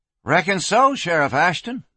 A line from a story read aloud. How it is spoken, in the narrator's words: the kid said brightly